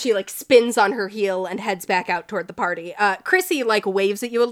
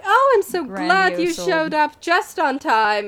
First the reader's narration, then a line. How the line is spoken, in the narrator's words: Jefferson Todd and Virginia Albrecht are speaking kind of in, like, they're doing the high-pitched laugh, and Virginia's like